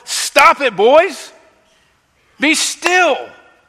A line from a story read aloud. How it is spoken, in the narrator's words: I yell from the field